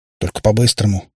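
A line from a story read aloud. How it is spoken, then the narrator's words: Driver's gruff mutter. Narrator (Russian): буркнул водитель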